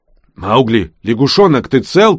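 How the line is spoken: Shout. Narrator (Russian): крикнул он

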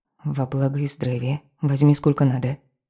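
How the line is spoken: Surprised whisper. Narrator (Russian): удивляясь самой себе, шепнула

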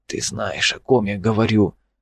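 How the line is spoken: Whisper. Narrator (Russian): шептал Олафсон

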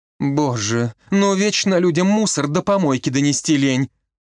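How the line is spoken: Nanny groaning. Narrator (Russian): простонала няня

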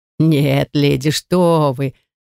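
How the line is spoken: Creaky laughter. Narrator (Russian): скрипуче засмеялся смотритель

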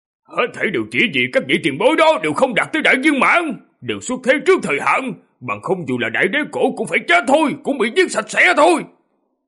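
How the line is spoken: Roaring. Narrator (Vietnamese): Nó gầm lên

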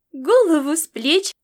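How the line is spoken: Laughing exclamation, young boy. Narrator (Russian): смеясь, воскликнул маленький оруженосец

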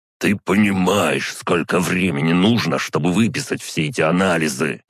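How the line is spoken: Hissing. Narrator (Russian): прошипел он

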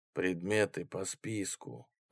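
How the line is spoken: Even tone. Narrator (Russian): ровным тоном продолжил Рой

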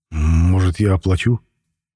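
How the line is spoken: Involuntary, uncertain voice. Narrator (Russian): Невольно вырвалось неуверенным голосом

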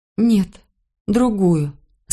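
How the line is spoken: Trembling voice. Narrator (Russian): сказала я дрожащим голосом

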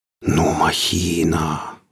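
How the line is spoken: Breathless exclamation. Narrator (Russian): выдохнул Алексей

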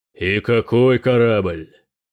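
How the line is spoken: Thundering voice. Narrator (Russian): прогремел Тирак

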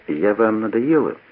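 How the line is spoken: Quiet. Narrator (Russian): Анжелика сказала тихо

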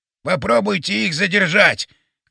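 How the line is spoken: Shouted. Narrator (Russian): крикнул он

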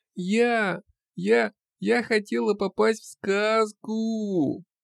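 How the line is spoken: Wailing, choking on sobs. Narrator (Russian): Провыла она, захлебываясь рыданиями

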